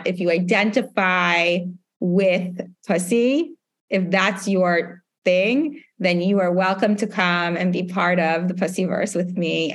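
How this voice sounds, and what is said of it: New York accent. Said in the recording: “There's something about the New York accent that is so comforting to me”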